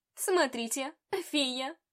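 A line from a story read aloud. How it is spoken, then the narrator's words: Mocking elf remark. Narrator (Russian): Издевательским тоном заметила эльфийка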